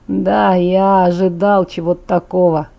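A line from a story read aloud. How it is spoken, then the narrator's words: Sighing. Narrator (Russian): вздохнул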